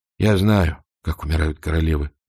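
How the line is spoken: Gruff mutter. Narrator (Russian): буркнул он

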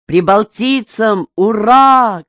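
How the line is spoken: Group shouting. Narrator (Russian): кричали они

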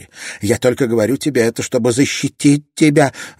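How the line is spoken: Desperate shout. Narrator (Russian): в отчаянии крикнула она

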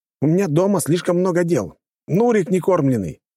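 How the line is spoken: Shouted out. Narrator (Russian): выкрикнул Булатов

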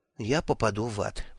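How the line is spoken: Muttering. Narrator (Russian): пробормотал он

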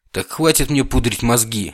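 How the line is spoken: Barking. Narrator (Russian): рявкнул Вильхиор

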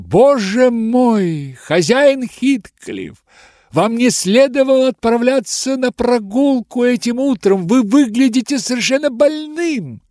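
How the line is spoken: Alarmed shout. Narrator (Russian): я тотчас закричала

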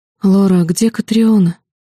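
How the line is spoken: Trembling, bewildered. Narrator (Russian): дрожащим голосом спросила она, растерянно

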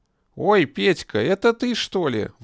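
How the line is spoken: Sudden surprised exclamation. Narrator (Russian): вдруг воскликнула она

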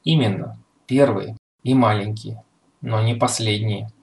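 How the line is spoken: Plain. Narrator (Russian): ответил Фотченков

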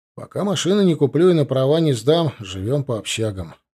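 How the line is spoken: Gloomy but firm. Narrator (Russian): мрачно, но твердо ответил я

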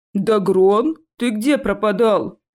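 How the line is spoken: Lazy question. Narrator (Russian): лениво поинтересовался один из них

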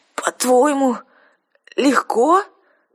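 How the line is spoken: Hoarse croak. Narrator (Russian): прохрипела я

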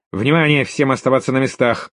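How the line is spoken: Loud command. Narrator (Russian): громко скомандовал низкорослый квадратный капитан

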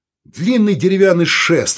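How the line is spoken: Irritated. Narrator (Russian): раздраженно сказал Саул

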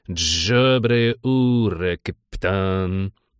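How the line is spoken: Gurgling, creaky voice. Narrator (Russian): булькнул, проскрипел высокий

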